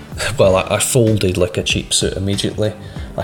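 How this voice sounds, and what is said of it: Usual voice. Nothing is said of it.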